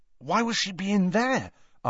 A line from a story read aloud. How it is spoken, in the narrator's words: asked Ron anxiously